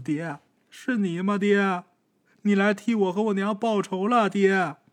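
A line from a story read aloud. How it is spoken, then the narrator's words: Crying. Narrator (Chinese): 小赖子哭着说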